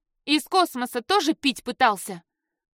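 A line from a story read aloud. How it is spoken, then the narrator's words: Irritated snort. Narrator (Russian): Эхран раздраженно фыркнул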